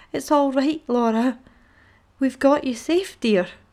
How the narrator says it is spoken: cried

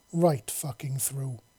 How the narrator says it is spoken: he said, his voice filled with anger

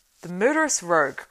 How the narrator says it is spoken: cried Eomer

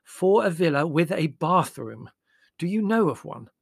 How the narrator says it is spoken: said Mother firmly

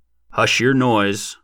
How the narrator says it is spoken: growled Stubby

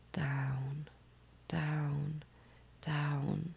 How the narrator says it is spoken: I started moaning in a low voice

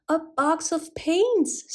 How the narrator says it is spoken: screamed the children

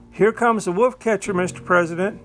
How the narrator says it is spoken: Colonel Lynn, seeing Abernathy, interrupted the president in the middle of his speech exclaiming

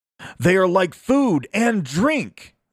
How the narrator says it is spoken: they cried

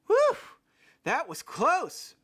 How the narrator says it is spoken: Frank said, gasping

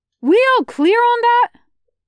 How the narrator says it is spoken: Carmen yells

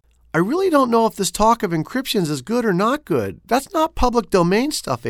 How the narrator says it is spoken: April shouted

